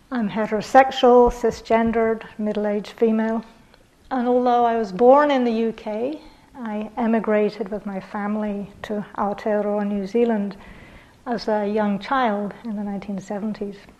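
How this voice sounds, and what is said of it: Northern English British accent. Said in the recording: “I was born in the UK, and most of my family were working class people from the north of England. So, this accent is actually not upper class, as sometimes people think.”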